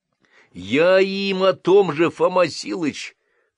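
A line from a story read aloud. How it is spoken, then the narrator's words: Treacherous booming drone. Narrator (Russian): предательски прогудел из синей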